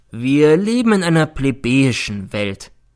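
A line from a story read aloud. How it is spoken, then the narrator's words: Sad. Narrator (German): nickte traurig zu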